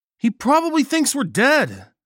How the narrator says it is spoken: Nagel yelled

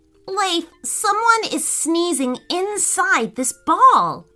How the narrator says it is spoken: cried Dean

